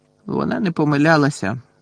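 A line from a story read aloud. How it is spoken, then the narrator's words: Sigh. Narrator (Ukrainian): зітхнув Гаррі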